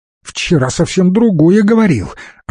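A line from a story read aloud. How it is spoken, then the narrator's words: Snapping retort. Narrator (Russian): огрызнулась Светка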